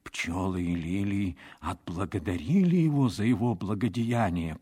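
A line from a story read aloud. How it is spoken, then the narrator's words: Whisper. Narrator (Russian): прошептал он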